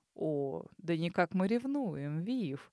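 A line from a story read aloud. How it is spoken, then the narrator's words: Purr. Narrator (Russian): мурлыкнул он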